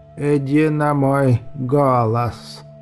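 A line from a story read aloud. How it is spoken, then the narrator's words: Creaking voice. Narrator (Russian): Снова проскрипело в углу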